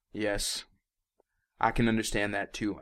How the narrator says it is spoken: I said

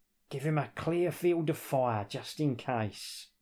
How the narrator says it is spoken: muttered Drax

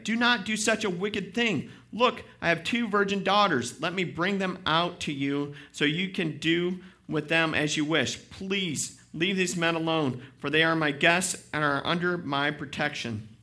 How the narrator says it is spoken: he begged

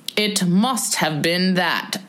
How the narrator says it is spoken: said the king

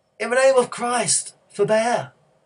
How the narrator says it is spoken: Telemachus cried

